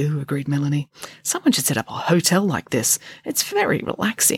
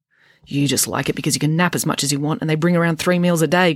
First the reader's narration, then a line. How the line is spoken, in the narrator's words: grumbled Friday